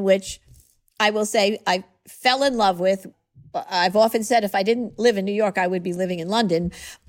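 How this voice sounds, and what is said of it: New York accent. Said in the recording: “this gal from New York, my New York accent”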